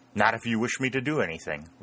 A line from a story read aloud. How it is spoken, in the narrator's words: replied Dick quickly